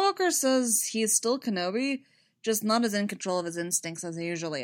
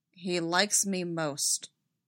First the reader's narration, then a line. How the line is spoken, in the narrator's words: Rex said, flatly disbelieving